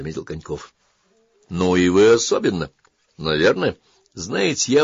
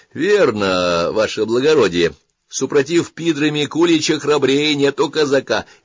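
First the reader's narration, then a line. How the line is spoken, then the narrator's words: Cheerful. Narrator (Russian): весело сказал Жмурин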